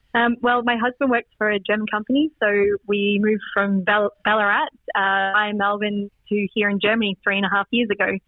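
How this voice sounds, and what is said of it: Australian accent. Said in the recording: “clearly not a German accent, it's an Aussie accent.”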